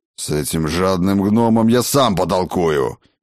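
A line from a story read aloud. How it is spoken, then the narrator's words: Fearsome growl. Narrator (Russian): Рыкнул господин Авитус, да так, что у Ирмы разом затряслись все поджилки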